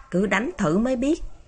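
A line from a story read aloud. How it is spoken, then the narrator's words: Muttering. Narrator (Vietnamese): Diệp Thiếu Dương lẩm bẩm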